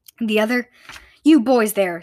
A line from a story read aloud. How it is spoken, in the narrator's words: snapped the pencil Roman